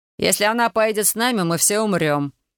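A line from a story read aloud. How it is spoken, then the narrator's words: Cold repetition. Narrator (Russian): холодно повторил Дмитрий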